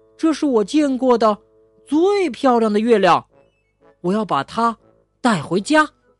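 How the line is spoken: Exclaiming. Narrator (Chinese): 他叫道

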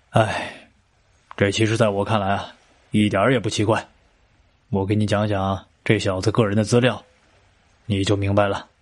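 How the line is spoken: Thoughtful pause, sighing. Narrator (Chinese): 雷警官沉思了一会儿，然后叹了口气说道

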